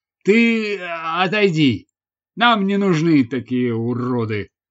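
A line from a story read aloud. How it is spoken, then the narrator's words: Plain. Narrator (Russian): сказал он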